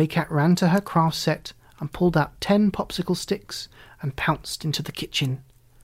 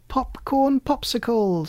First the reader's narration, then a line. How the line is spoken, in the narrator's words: she squealed